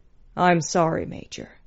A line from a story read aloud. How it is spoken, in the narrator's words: said in that deep voice that always went straight to her heart